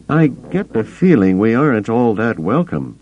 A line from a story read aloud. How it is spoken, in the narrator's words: Han said